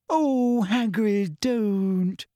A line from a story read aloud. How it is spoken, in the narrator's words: moaned Hermione